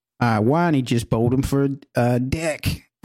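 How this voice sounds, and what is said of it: Put-on Australian accent. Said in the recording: “read these to me in your best Australian accent ... That is good.”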